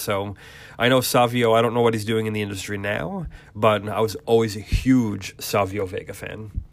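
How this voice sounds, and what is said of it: Voice starting to give out. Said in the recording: “I'm starting to lose my voice a little bit”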